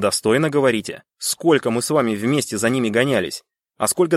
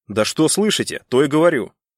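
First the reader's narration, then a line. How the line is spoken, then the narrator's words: Barked. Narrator (Russian): рявкнул Стовер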